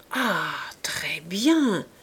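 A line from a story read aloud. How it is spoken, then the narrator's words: Murmured. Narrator (French): murmura Clorinde, à un coup délicatement joué par Rougon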